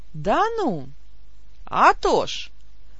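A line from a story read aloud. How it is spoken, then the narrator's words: Cheerful old man. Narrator (Russian): бодро закивал дедок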